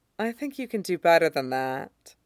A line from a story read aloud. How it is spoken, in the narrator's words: says sweetly